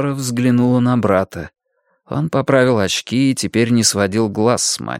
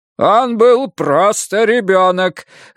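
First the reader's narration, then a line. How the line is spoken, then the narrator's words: Father shouting. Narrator (Russian): закричал отец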